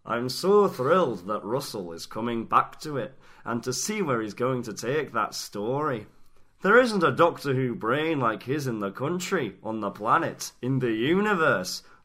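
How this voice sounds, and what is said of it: Attempted Edinburgh Scottish accent. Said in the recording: “That sounds nothing like David. ... It's just my Edinburgh accent.”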